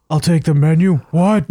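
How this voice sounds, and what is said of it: Imitates another person's voice. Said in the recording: “that your Stone Cold impression?”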